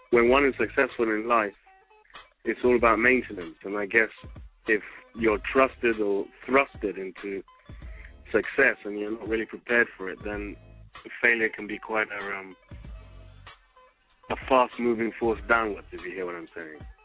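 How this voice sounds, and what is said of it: British accent. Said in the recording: “you do sound very British over there.”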